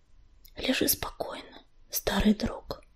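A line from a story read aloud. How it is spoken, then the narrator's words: Whisper. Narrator (Russian): Прошептала Пепелица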